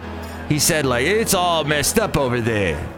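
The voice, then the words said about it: Imitates another person's voice. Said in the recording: “my Trump impression. I think that's the best Trump impression”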